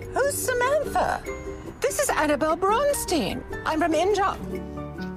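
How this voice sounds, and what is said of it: Put-on British accent. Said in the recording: “do you have a British accent?”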